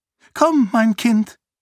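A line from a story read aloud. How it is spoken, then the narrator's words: High-pitched voice. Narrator (German): sagte Eschen mit hoher Stimme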